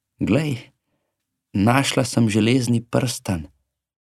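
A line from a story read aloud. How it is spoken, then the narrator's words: Cheerful cat. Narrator (Slovenian): Mačka je veselo rekla psu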